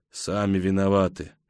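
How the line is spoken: Muttered. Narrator (Russian): бормочу я

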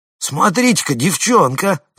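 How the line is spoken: Shouting. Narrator (Russian): заорал кто-то из них

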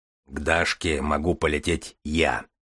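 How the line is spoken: Deep bass voice. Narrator (Russian): пробасил Железовский

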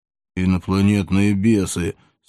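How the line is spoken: Through clenched teeth. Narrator (Russian): сквозь зубы подтвердил молодой человек

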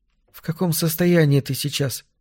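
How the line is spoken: Plain. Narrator (Russian): спросила она наконец

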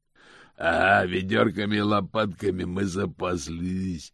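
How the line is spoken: Growled. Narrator (Russian): прорычал голос из кареты

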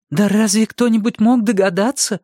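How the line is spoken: Exclaiming. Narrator (Russian): воскликнула мама

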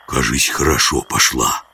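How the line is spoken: Whisper. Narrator (Russian): прошептал жихарь

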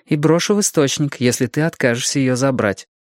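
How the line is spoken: Calm. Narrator (Russian): сказала Рэйчел спокойно

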